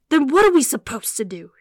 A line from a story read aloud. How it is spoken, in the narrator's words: He snarled